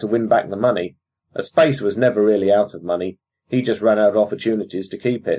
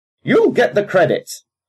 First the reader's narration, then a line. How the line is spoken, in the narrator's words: Captain Defu snarled the words